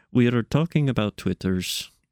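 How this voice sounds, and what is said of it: Deliberately bad put-on accent. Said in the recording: “I am doing a bad accent.”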